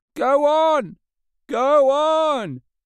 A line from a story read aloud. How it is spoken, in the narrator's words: shouted angry voices behind